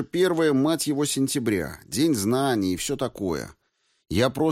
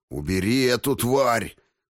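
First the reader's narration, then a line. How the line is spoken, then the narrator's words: Growled. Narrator (Russian): прорычал высокий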